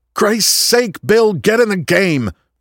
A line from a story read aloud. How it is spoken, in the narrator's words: Vern yelled